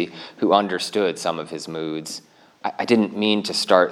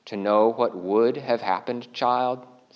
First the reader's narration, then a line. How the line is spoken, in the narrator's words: said Aslan